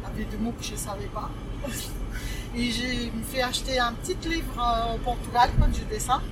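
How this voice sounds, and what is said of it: Slight foreign accent in French. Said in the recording (French): “j'ai accent et je ne parle pas correctement ... j'ai l'accent un petit peu”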